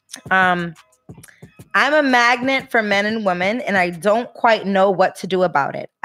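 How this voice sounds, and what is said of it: Fake accent imitating her mother. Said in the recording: “this fake ass accent ... I'm talking like my mom”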